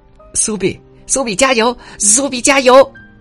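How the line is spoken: Child's loud cheering shout. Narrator (Chinese): 我的小主人大声的对我喊

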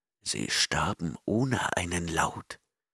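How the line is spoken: Murmuring. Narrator (German): murmelte der Chimerier

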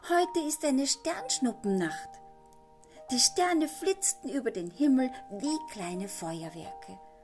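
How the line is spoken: Excited. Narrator (German): sagte Henry aufgeregt

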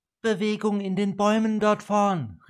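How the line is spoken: Calling downward. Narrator (German): rief die Elfe nach unten

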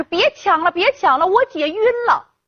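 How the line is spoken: Loud shout. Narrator (Chinese): 小凤的堂妹大喊说

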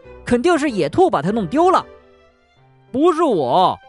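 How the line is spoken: Angry shout. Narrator (Chinese): 松鼠生气的喊道

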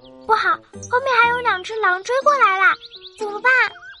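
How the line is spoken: Loud shout. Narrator (Chinese): 爱就大声的喊着

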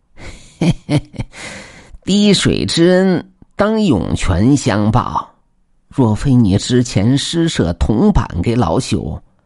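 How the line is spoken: Old beggar, slight smile. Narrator (Chinese): 老乞丐微微一笑的说道

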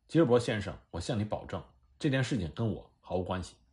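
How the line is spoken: Trembling voice. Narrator (Chinese): 那位牙医声音颤抖的说

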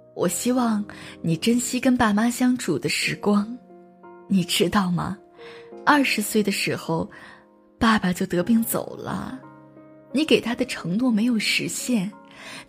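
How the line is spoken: Choked-up elderly woman. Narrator (Chinese): 七十岁的阿姨哽咽着对十八岁的自己说

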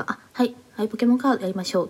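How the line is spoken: Plain. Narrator (Japanese): って言って

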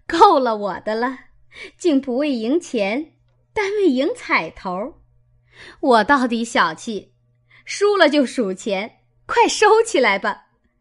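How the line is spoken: Laughing. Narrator (Chinese): 凤姐儿 向众人笑道

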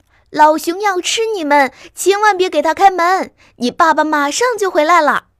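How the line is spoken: Frantic shouting. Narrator (Chinese): 八哥小姐 拼命叫

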